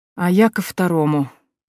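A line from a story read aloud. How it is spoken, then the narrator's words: Silent inner moan. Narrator (Russian): мысленно простонала я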